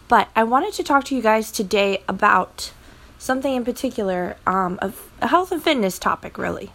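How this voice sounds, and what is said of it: Slightly strange, sick-sounding voice. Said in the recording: “my voice sounds a little bit strange. It's probably me on the verge of sickness.”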